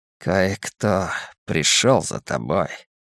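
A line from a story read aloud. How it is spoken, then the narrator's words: Muttering. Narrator (Russian): пробормотал невидимка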